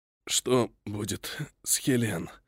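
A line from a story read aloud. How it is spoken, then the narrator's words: Strained, exhausted rasp. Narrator (Russian): Из последних сил сдавленно прохрипел я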